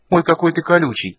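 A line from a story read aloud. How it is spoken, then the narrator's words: Playful exclamation. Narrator (Russian): воскликнула она шаловливо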